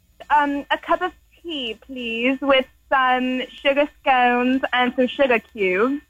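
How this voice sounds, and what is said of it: Put-on British accent. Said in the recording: “Can you do a British accent? ... you sound like if Mary Poppins got high.”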